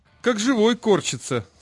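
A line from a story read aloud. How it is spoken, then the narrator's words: Joyful. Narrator (Russian): сказал кто-то радостно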